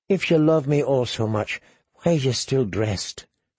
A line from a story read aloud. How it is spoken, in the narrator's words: she whispered